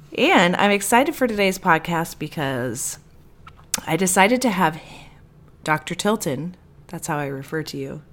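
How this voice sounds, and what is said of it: Rough, congested voice like a smoker. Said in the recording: “I got a Christmas gift of a cold, which you can hear in my voice. Greg says that I sound like I smoke.”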